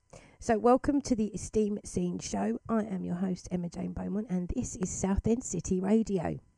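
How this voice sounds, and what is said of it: Voice rough and congested. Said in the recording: “Excuse my voice. I have a really nasty cold today”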